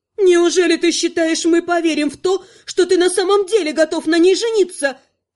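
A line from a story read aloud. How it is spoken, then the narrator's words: Exasperated exclamation. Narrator (Russian): Не выдержав, воскликнула Амалика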